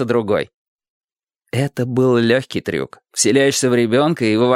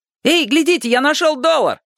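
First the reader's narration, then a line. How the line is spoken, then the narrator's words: Shout. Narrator (Russian): крикнул один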